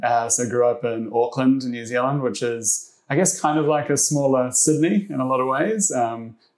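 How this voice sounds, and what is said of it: New Zealand accent. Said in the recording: “originally from New Zealand, you might be able to tell from the accent”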